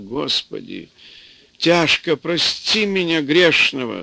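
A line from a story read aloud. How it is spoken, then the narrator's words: Old woman sobbing. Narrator (Russian): Старуха опять всхлипнула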